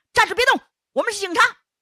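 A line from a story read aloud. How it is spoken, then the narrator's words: Police captain shouting. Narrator (Chinese): 刑警队长，也喊了一声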